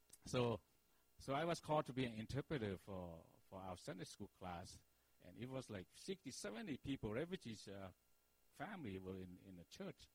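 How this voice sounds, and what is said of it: Non-native English accent. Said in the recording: “I still have a hard time speaking English. Our children always say, Mom and Dad, you have accent”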